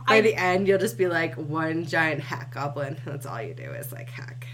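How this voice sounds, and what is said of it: Croaky, sick-sounding voice. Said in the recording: “I'm sick, so I sound like a dead frog.”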